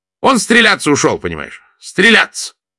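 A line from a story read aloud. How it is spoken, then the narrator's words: Shouting while running. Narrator (Russian): Даниэль закричал на бегу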